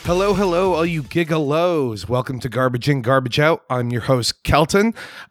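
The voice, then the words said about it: Hoarse, strained sick voice. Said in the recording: “I am sick this week. My voice has just been strangled by an unknown supernatural being ... you have a sentient tumor in your throat”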